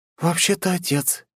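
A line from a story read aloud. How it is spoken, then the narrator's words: Quiet speech. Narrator (Russian): тихо проговорила Виктория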